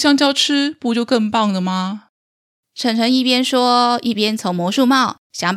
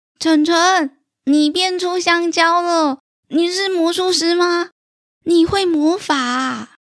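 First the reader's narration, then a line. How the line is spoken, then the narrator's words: Serious. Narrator (Chinese): 小佑正经地说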